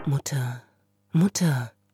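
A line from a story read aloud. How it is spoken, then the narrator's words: Soft. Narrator (German): sagte Gregor leise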